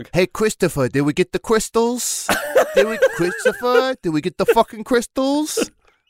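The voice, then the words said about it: Tony Soprano impression. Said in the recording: “Gandalf impersonator doing a Tony Soprano impersonation.”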